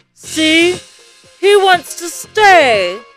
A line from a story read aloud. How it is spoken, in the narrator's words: exclaimed the kid